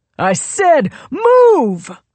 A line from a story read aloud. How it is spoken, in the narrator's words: Royal yelled